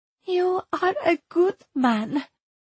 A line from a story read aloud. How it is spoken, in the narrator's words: said Erzsébet, almost tearfully